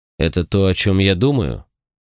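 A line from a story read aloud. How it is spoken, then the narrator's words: Grim question. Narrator (Russian): мрачно спросил отец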